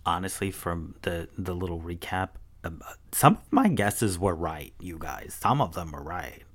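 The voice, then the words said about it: Radio DJ style delivery. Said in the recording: “talking like a radio DJ”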